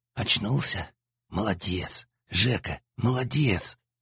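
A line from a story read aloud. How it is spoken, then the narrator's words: Barely audible whisper. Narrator (Russian): Едва слышно шепчет сиротин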